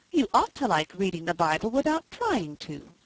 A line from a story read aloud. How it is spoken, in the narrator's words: exclaimed Felicity